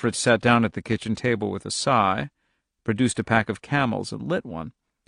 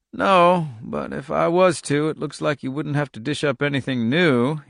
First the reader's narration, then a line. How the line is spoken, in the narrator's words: said dryly